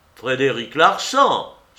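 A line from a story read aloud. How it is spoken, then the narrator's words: Exclaimed. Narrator (French): s'écria le président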